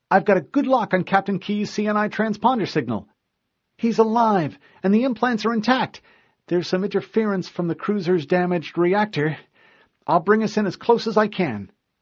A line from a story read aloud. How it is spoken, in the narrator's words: she exclaimed